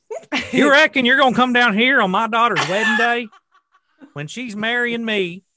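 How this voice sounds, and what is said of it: Thick Southern US accent. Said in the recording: “That in a real thick southern accent... What does The Godfather sound like in a backwater swamp?... The Godfather of Kentucky.”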